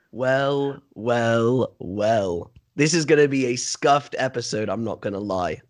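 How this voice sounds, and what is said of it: Sick, cold-affected voice. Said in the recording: “I think I caught the cold as well, so I'm feeling absolutely horrendous. You can probably hear it in my voice.”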